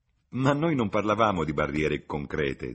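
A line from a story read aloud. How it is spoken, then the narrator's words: Laughing. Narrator (Italian): disse Lucy ridendo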